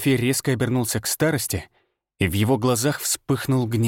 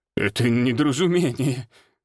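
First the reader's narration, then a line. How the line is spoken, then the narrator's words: Stammering. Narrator (Russian): заикался староста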